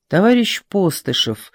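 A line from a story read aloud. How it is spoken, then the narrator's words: Quiet call. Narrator (Russian): негромко окликнули его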